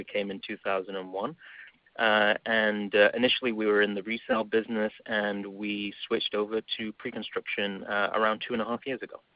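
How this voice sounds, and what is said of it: English accent. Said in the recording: “you can tell from my accent, I'm from England.”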